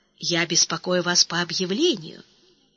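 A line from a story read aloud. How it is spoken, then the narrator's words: Quiet, polite. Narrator (Russian): Он тихо молвил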